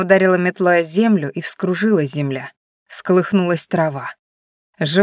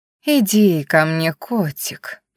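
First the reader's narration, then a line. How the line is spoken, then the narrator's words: Cooing. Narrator (Russian): проворковала Ленка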